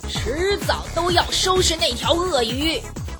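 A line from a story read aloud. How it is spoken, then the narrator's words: Angry loud roar. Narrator (Chinese): 愤怒地大声地吼道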